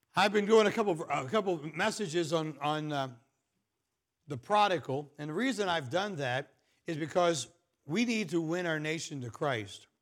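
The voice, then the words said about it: Rough, strained voice. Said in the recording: “I apologize for my voice. I'm sorry to make you have to listen to this. But sounds a whole lot worse than it really is.”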